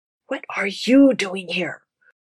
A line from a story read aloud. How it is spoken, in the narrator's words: Aziraphale hissed